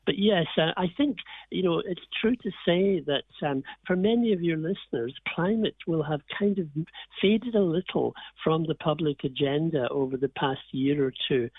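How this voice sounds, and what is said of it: Irish accent from Donegal. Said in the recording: “my accent better understood than perhaps down here in the east of Ireland”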